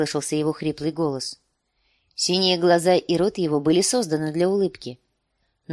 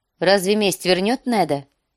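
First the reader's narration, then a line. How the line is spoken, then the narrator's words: Sharp. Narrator (Russian): сказала она резко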